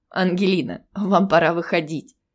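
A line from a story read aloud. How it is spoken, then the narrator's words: Warm laughter. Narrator (Russian): закончил свою мысль он и тепло засмеялся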